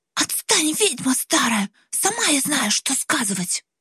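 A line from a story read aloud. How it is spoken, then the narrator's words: Hiss. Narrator (Russian): прошипела в ответ Глаша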